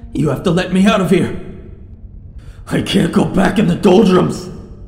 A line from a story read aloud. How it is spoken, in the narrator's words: His screams